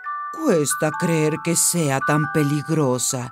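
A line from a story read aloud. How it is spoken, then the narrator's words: Plain. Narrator (Spanish): dijo Sully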